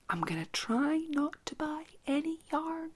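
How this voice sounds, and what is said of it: Quiet, lowered voice. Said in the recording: “I'm only going to say this quietly”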